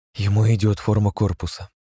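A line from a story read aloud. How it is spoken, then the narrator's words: Very quiet whisper. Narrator (Russian): совсем тихо прошептала Рианора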